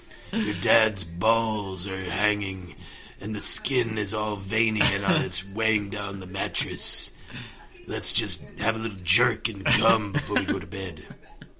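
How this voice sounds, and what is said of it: Cartoon monster character voice. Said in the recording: “could do a really good impression of the hormone monster”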